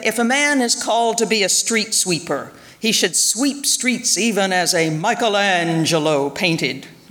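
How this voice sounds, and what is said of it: Imitating Martin Luther King Jr. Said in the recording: “Sorry, it's hard to keep from imitating him.”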